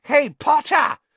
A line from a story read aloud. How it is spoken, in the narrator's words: shrieked Pansy Parkinson, a Slytherin girl